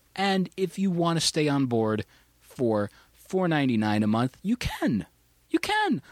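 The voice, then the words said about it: Voice cracks mid-sentence. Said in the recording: “My voice cracked a little. I'm going through puberty”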